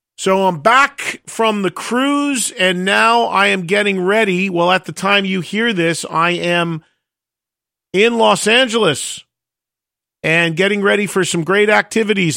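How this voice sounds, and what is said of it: Slightly raspy voice. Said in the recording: “You could probably still hear my voice a bit raspy from literally talking for 5 days over blasting loud music”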